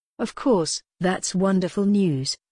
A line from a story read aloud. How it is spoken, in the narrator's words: she said